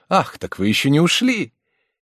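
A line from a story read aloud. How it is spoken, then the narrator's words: Exclamation. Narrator (Russian): замдиректора воскликнул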